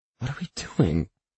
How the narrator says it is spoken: Ella hisses, but she's laughing

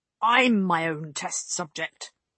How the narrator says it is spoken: Guyen growled

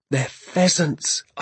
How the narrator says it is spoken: I cried

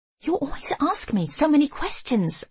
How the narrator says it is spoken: I hiss

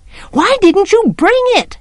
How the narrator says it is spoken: Jem yelled

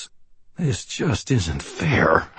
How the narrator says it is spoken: I muttered to myself

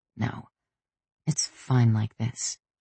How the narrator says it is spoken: I muttered

